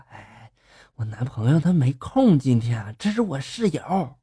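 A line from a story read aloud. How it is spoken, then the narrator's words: Quiet voice. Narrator (Chinese): 表妹小声就说了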